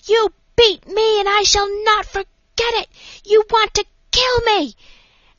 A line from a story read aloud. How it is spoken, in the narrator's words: screaming at some nurse